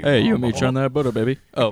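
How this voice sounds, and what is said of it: Johnny Bravo impression. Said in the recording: “let's hear your Johnny Bravo impression”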